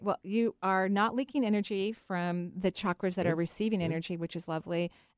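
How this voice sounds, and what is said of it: Thick accent. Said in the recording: “That's a thick accent there.”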